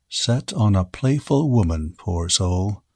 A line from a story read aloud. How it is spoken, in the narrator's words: said Graham softly to himself